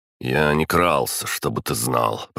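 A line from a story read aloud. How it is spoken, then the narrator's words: Grumbled. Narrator (Russian): проворчал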